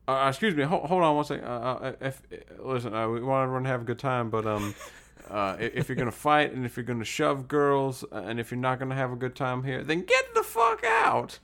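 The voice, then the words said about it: Impression sounding like cartoon rooster. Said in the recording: “your Dave impression is like, what's that big rooster's name from Looney Tunes? ... Foghorn Leghorn”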